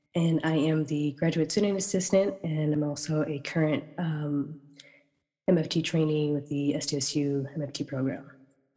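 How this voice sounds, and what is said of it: Voice sounds sick. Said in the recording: “Pardon my voice, I'm a bit sick right now.”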